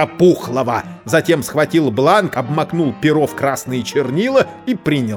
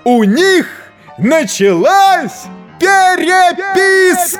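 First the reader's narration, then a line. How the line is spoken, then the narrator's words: Breathless messenger shouting. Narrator (Russian): Гонец остановился, набрал воздуху и крикнул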